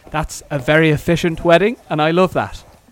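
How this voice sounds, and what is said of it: Irish accent impression. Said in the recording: “How was that as a Michael impression? ... Oh, that was very good. ... That's a very good Irish accent.”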